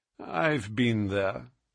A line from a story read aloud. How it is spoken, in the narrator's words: said he dryly